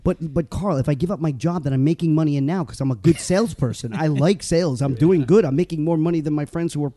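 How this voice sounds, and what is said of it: Usual voice. Nothing is said of it.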